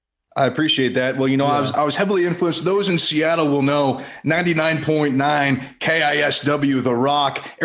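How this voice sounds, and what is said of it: Polished radio-host voice. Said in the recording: “You have this beautiful radio voice ... got a better radio voice than any of us”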